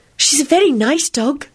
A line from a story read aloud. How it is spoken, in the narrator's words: Luna said consolingly in her dreamy voice